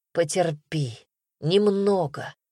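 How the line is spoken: Hoarse pained rasp. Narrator (Russian): прохрипел, когда грудь обожгло новой вспышкой боли

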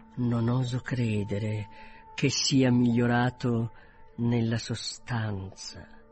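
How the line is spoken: Quieter, more serious. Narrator (Italian): soggiunse più piano e in tono più serio

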